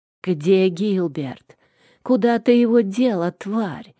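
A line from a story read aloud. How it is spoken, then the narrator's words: Venomous hiss. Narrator (Russian): зашипела заловка, почище какой-нибудь змеи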